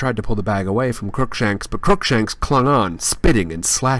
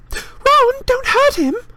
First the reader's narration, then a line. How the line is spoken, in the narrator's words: squealed Hermione